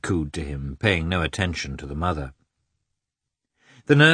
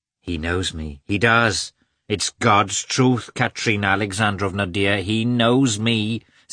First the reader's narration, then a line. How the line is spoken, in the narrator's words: said Agafya Mikhailovna, raising her voice above the baby's